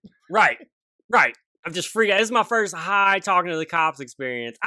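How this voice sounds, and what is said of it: Southern US country accent. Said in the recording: “You're a white kid with a country accent like that. You're a white kid with a country accent”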